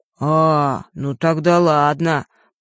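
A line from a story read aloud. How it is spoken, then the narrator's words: Drawling. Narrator (Russian): протянул жаба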